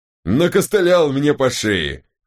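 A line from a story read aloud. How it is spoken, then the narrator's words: Wry grunt. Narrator (Russian): хмыкнул Аптахар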